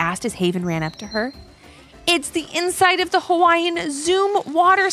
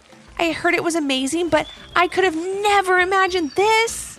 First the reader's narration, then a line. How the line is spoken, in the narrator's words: exclaimed Haven